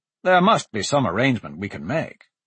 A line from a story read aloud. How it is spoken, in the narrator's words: Dante said, thinking quickly